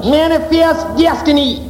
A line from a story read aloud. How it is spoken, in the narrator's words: cried the captain of the ship